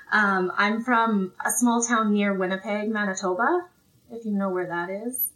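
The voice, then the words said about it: Slight Canadian accent. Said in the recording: “i think i detect a very charming accent ... So I have a bit of a Canadian accent”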